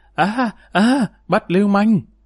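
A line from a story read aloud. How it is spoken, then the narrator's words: Terrified shrill scream. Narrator (Vietnamese): toàn thân sởn hết lên, Tiểu Lộ thét chói tai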